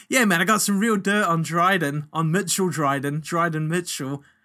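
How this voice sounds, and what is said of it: Imitates another person's accent. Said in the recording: “I can't do your accent.”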